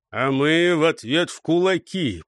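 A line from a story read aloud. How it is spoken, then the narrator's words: Booming rumble. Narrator (Russian): прогудел Гуляй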